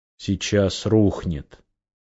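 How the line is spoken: Quiet summing up. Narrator (Russian): Тихо подытожил

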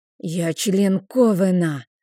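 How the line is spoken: Menacing animal-like growl. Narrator (Russian): рыкнула я грозно, словно зверь

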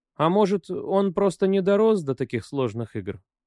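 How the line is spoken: Timid question. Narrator (Russian): робко вопрошала жена

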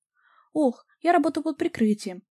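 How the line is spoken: Sighing. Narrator (Russian): вздохнула Вика

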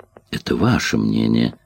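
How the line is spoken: Calm objection. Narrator (Russian): спокойно возразила Эллен

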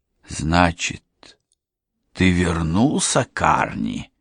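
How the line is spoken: Slow old woman's mutter. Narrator (Russian): медленно пробормотала старуха

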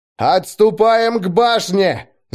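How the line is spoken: Yelling at full strength. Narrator (Russian): Заорал он, что есть сил

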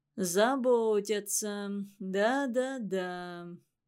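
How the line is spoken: Sad deep bass. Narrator (Russian): грустно пробасил Иван Иванович

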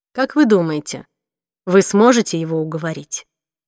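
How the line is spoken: Plain. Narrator (Russian): спросила она

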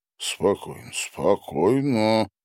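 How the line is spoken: Muttering, then sharp self-rebuke. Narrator (Russian): забормотал он уносимый течением и прикрикнул на себя

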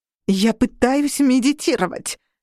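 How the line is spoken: Growl. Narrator (Russian): прорычала Мод

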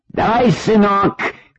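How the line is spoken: Old man shouting. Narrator (Russian): крикнул старик корейцу

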